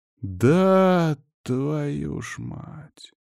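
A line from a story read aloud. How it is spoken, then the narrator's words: Drawn-out drawl. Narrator (Russian): протянул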